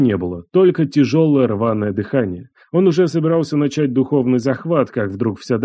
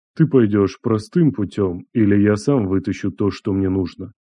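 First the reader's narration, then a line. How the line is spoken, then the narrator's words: Quiet. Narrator (Russian): Андрей тихо произнес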